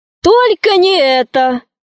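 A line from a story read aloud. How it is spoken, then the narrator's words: Exclaimed. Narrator (Russian): воскликнула мама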